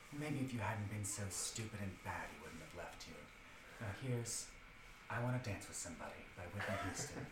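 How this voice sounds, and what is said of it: Soft ASMR-style radio DJ voice. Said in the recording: “You actually have a great ASMR voice ... I like to channel Delilah from Houston. She was a radio DJ who used to read people for filth in this voice”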